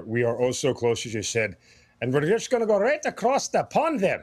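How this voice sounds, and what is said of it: Put-on Irish-style accent. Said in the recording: “Sorry, I couldn't resist. All right, now I'm done. I promise, no more accents.”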